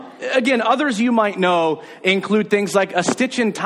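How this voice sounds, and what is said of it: Usual voice. Nothing is said of it.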